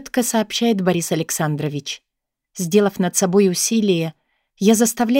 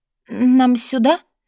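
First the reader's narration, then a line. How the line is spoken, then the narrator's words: Timid question. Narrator (Russian): робко спрашиваю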